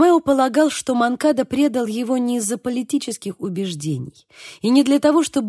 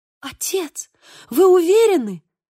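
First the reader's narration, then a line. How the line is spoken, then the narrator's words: Girl exclaiming. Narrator (Russian): воскликнула девушка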